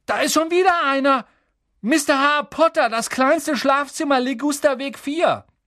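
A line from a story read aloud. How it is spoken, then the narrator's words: Called out. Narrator (German): rief er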